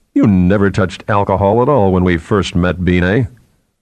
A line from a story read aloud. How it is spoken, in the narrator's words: Laughing, Theremin said